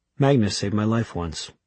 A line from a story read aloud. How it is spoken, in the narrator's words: added Raphael in an emotionless voice